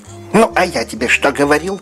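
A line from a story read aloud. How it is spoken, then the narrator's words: Angry. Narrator (Russian): сказал дядюшка Рет сердито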